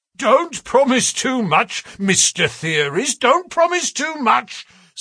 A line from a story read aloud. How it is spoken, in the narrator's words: snapped the detective